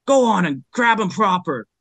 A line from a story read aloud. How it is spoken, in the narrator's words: bellowed the assailant